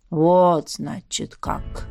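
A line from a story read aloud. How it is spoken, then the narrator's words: Mutter. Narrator (Russian): пробормотал он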